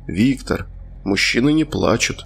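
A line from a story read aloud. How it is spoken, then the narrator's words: Disapproving, weary father. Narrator (Russian): отец неодобрительно хмыкнул и устало напомнил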